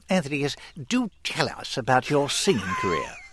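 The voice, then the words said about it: Put-on British accent. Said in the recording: “I'm going to ask my next question in a British accent”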